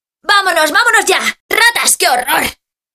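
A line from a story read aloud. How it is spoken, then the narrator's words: Shouted. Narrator (Spanish): grita Juan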